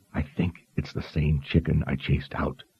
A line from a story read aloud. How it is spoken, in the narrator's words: he whispered at last